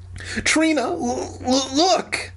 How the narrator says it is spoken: Dan stammered

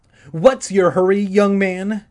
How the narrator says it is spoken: she snapped at Todd

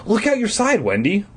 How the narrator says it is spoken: Mom cried from the front seat

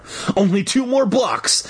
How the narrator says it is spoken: I called breathlessly

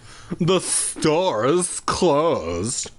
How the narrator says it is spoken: the man said through gritted teeth

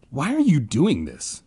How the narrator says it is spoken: Ben shouted over their eerie chant

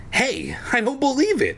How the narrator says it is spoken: I cried happily

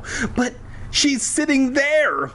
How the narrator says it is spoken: sputtered

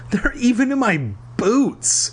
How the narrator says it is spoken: he wailed

